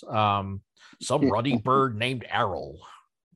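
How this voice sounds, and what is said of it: Hagrid impression. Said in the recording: “good impression.”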